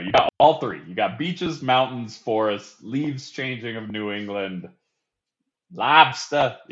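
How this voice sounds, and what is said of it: Put-on Northeastern US accent. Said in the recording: “I had to get in my Northeast accent.”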